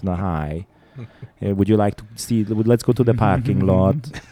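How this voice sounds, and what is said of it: Put-on Hungarian Bela Lugosi accent. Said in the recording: “a Hungarian accent ... talking like fucking Bela Lugosi”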